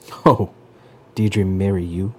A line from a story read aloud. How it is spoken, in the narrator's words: his father cackled